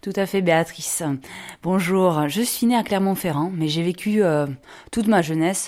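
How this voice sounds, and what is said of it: Pleasant non-northern regional French accent. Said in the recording (French): “à vous entendre avec votre bel accent, il me semble que vous n'êtes pas née dans le Nord”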